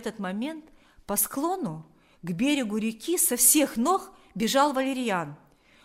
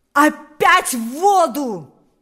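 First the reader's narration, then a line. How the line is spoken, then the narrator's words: Shouting. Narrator (Russian): закричал теперь уже сам Паисий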